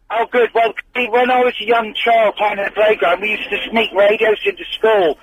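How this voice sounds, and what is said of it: Cornish English accent. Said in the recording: “his Cornwall accent”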